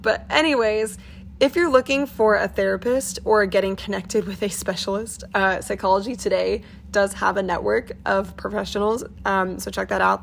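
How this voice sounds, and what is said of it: Voice sounds bad, late-night tired. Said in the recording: “it's now in the middle of the night ... which is also why my voice sounds terrible”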